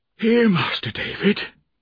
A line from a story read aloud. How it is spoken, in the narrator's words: she cried breathlessly